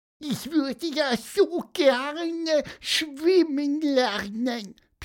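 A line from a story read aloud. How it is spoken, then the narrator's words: Squeaky voice. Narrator (German): piepste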